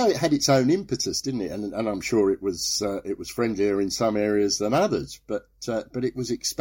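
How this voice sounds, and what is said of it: Usual voice. Nothing is said of it.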